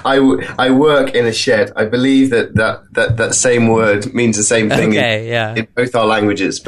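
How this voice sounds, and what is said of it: English accent. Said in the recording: “accent somewhere in the UK ... I have an English accent”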